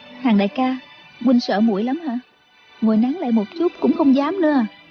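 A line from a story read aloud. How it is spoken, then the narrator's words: Smiling. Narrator (Vietnamese): Chú Chỉ Nhược mỉm cười nói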